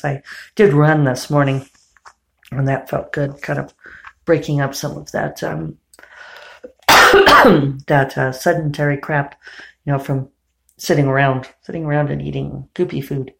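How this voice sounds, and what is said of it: Slightly hoarse voice. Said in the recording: “I don't know why I have a little bit of hoarseness.”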